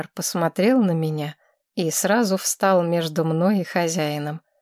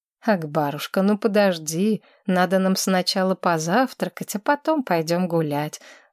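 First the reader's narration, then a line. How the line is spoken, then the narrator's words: Gentle affectionate voice. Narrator (Russian): ласково сказал Федор Григорьевич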